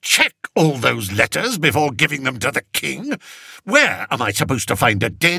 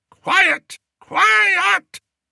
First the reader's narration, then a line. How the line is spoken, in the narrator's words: bellowed Spittleworth as he entered the dungeon, because the place was ringing with noise